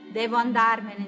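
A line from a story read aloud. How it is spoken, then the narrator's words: Plain. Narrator (Italian): disse Grande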